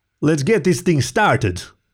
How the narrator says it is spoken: bellowed the wolverine

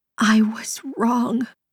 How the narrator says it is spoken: Her watery eyes locked with his as she croaked out

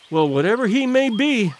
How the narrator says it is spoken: cried the girl

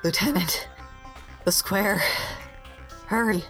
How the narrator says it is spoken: he pants, leans over, puts his hands on his knees and says

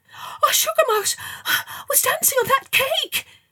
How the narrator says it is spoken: gasped

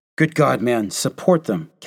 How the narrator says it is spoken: Captain Delahunty cried

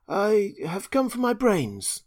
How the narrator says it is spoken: remarked the Scarecrow a little uneasily

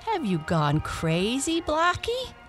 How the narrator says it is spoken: he asked as well as he could for laughing

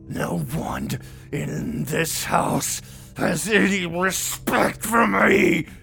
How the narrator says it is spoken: screamed

